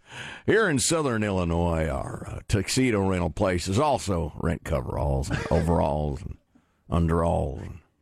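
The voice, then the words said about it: Folksy rural Southern Illinois voice. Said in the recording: “I'm from Southern Illinois, so I'll be speaking in a folksy voice.”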